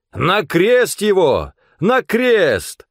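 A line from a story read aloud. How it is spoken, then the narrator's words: Crowd shouting. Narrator (Russian): старшие священники и стража закричали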